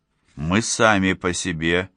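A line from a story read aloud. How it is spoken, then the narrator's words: Mumbling. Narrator (Russian): пробормотал Фоллер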